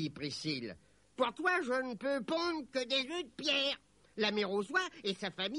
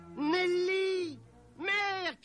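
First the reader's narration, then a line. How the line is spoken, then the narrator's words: Shouting. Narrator (French): cria Robin lorsqu'il l'aperçut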